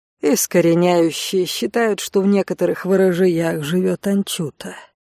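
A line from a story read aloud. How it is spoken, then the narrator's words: Calm answer. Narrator (Russian): спокойно ответила лекарка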